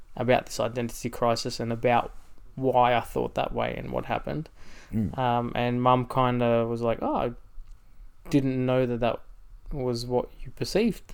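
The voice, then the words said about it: Australian accent. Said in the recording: “your accent probably gives it away that you are Australian.”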